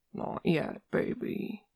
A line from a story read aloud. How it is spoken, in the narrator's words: he murmurs against Nick's shoulder